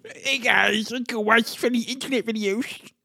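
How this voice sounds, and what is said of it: Imitates another person's voice. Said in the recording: “That's my impression of Tosh. ... Pretty good, right?”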